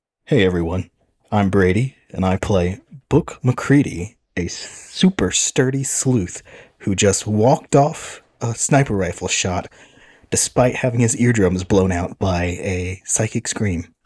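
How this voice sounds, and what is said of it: Imitates another person's voice. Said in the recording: “my Brady impersonation? ... That was perfect”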